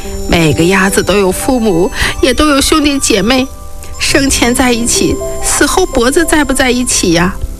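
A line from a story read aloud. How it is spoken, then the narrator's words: Speaking, breaking into tears. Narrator (Chinese): 说着说着哭了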